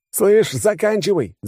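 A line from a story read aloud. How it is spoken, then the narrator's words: Yelling. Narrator (Russian): заорал я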